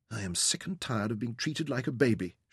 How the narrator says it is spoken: whispered

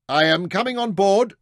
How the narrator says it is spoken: Mansur shouted back

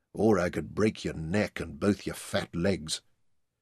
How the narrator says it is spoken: he muttered

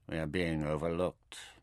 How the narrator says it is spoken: he said flatly

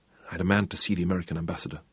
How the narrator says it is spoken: said huskily

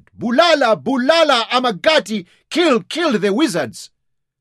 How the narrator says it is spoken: they drummed on their black war shields with the assegais, a deafening roar, and they shouted

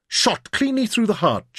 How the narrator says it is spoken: Jim cried

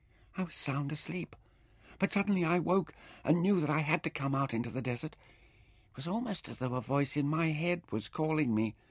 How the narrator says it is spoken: her voice trembled when she said softly

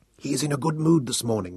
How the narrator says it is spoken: whispered

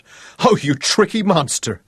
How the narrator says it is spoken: And then she became incoherent as laughter overwhelmed her

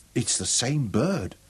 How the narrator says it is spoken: Yan Shirut murmured

